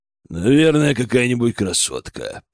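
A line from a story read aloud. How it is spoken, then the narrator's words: Deep bass bear. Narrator (Russian): пробасил медведь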